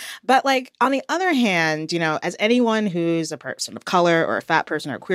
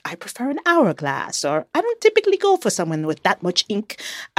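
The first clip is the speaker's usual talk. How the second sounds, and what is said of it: Put-on accent, self-described as poor. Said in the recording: “excuse my terrible accent.”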